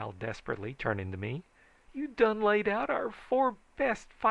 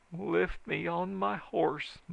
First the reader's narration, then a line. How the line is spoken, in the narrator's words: moaned Jim